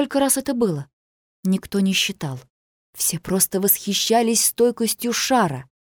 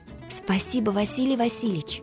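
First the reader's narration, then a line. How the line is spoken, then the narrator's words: Whispered, female teacher. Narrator (Russian): прошептала учительница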